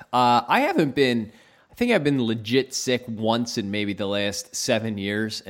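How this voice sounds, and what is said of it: Congested voice from a cold. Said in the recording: “I apologize to everyone for my voice. I have a cold... the cold is coming on”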